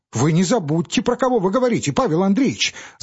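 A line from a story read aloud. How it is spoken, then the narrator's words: Stammering babble. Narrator (Russian): залепетал кассир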